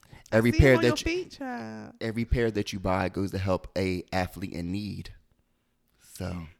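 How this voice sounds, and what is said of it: Salesy promotional voice. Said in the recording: “I put on my promotion voice.”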